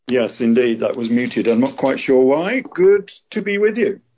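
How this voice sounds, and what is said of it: English accent. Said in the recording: “I can hear by your accent you're from somewhere in England.”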